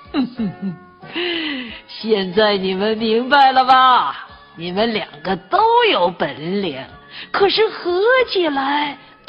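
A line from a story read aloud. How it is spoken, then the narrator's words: Smiling old bear. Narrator (Chinese): 老熊笑眯眯的说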